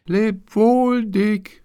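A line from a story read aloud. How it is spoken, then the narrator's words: Shouting as loud as possible. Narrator (German): rief er, so laut er konnte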